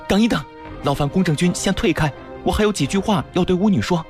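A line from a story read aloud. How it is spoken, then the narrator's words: Hurried call. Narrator (Chinese): 须米 忙叫道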